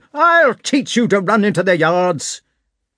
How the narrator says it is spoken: shouted

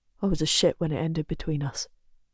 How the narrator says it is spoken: he mutters

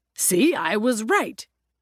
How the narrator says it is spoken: he always declared

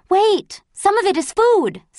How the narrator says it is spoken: said Jonas, frantically collecting things off the ground

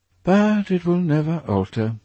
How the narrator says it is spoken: sighed Hallward

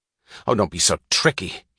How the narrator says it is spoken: he snapped

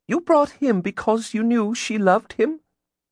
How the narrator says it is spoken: she cooed

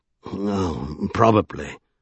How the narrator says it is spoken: sighed Drawlight

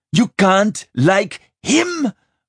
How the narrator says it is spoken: Wren screeched

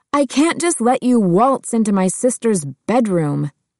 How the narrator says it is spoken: Heather shouted

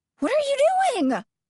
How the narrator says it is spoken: almost scream

